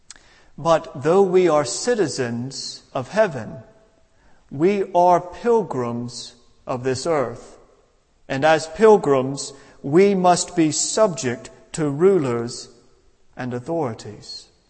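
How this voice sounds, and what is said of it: Non-local foreign accent. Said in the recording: “my accent reveals I'm not from here”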